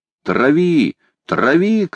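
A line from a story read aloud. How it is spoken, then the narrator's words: Shouting. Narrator (Russian): кричал молодой капитан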